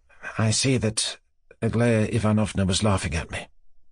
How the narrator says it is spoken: said Mushkin sadly

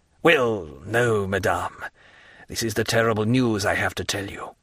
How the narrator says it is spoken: said Villefort, in a hollow voice

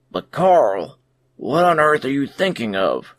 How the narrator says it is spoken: cried Robinson, and his anxiety was so great

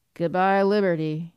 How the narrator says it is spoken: he said sullenly

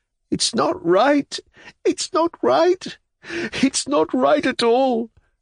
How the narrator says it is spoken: shaking with convulsive sobs, kept repeating

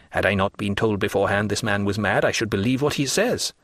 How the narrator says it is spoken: said in a low tone

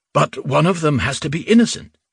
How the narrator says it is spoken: Rubin exclaimed

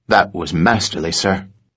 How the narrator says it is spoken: West whispered to him

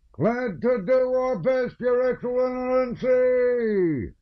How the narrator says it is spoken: came a confused shout from the ranks

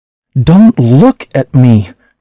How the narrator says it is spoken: cried Eccles

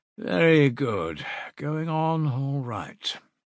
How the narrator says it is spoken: he said lazily

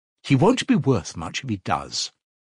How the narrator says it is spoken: answered Dunya sharply and contemptuously

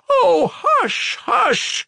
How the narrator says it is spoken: cried Sonia

